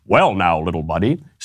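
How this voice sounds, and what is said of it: Imitates another person's voice. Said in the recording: “in my Dennis Prager voice.”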